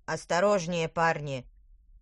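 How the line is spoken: Booming leader. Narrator (Russian): прогудел тыквер, предводитель отряда

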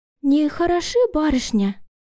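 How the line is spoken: Sadly surprised tone. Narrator (Russian): произнесла она печально удивленным тоном

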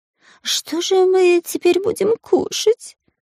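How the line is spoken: Whiny wailing. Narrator (Russian): плаксивым голосом выл Дырка

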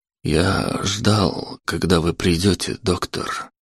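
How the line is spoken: Barely audible. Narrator (Russian): еле слышно произнес Антон

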